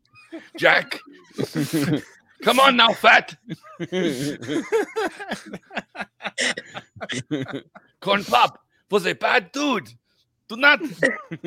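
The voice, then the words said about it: Yelling put-on German-like accent. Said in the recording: “What is that accent? ... I was trying to do like a yelling German voice. ... You sounded more like the Iron Sheik”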